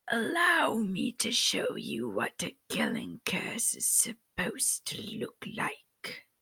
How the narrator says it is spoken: Voldemort hissed

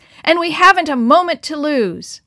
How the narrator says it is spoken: shouted above the roar of the waves

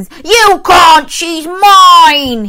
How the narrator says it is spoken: he roared

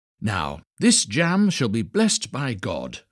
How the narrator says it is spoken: cried the little tailor

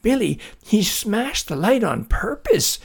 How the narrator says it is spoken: shouted Jackie

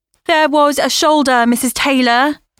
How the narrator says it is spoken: Lena shouted through the computer

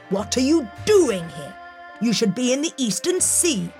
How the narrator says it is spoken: snapped

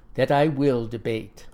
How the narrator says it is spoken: says in a quiet, steady voice

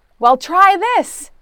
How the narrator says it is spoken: Jesus shouted back

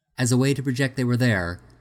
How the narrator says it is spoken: Tornak asked loudly

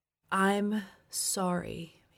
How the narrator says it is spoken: said slowly

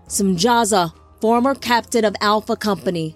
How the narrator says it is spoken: Azam shouted

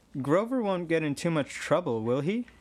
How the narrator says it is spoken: I asked Chiron

